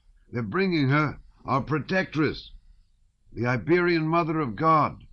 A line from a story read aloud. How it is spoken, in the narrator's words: someone cried